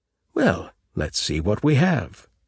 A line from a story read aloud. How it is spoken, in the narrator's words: Merrill said happily